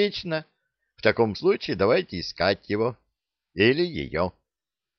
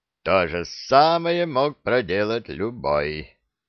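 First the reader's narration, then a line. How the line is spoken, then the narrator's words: Grumbling. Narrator (Russian): проворчал Вулф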